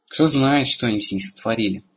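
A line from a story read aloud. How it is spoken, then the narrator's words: Grim reply. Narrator (Russian): мрачно откликнулся Эрагон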